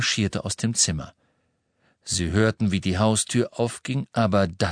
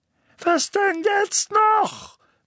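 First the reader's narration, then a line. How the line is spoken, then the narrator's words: Barked. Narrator (German): bellte Onkel Vernon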